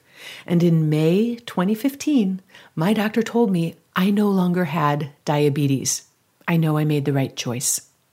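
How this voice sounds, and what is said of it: Slightly choked-up, emotional voice. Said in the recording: “I'm getting a little choked up just reading this”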